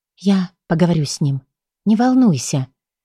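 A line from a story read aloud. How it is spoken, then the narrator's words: Quiet, encouraging. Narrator (Russian): тихо произнесла ободряюще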